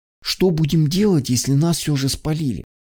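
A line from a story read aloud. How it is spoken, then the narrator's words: Whispered question. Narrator (Russian): шепотом уточнил он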